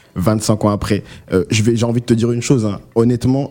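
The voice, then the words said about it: Sing-song accent. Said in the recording (French): “l'accent qui est de retour là ... l'accent qui chante comme ça”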